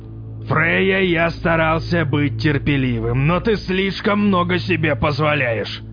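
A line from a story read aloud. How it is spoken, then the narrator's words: Menacing, through gritted teeth. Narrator (Russian): Грозно процедил Вотан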